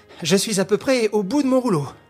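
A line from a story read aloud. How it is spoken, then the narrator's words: Cheerful. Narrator (French): fit Beautrelet gaiement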